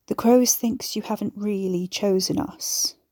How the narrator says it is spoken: she mumbled

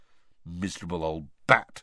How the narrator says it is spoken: said Ron bitterly

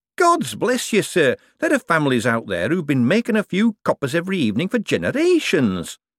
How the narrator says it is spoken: said Shady happily

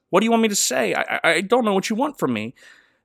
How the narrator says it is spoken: Matthew's analytical autistic brain is overwhelmed by the question, and he stammers

